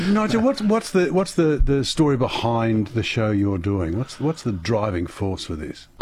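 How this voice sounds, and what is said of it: Usual voice. Nothing is said of it.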